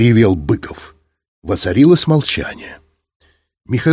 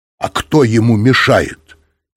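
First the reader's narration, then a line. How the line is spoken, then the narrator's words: Angry. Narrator (Russian): сердито сказал Быков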